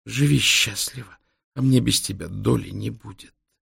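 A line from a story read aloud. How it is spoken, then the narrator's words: Whispered. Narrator (Russian): шепнула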